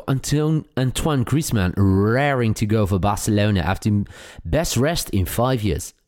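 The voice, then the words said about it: Put-on English accent, not his usual. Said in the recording (Dutch): “Waarom is dit niet jouw normale accent in het Engels ... vind het beter dan dat halve Hollandse accent, wat niet echt past bij een Ier.”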